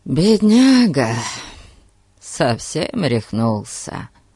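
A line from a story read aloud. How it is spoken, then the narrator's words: Sympathetic sigh. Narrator (Russian): Сочувственно вздохнул Фати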